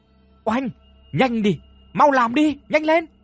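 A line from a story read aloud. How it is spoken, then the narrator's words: Urgent shouting. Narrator (Vietnamese): Dung liền hét lên thúc giục một lần nữa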